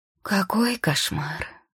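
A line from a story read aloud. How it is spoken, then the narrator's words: Sigh. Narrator (Russian): вздохнула она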